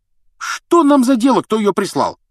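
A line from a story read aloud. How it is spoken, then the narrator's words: Carefree exclamation. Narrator (Russian): воскликнул беспечный Рон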